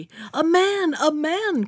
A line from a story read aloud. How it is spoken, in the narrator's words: cried she